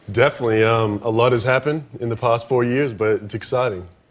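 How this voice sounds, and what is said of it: Australian-American mixed accent. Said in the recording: “Australian. Australian mixed American.”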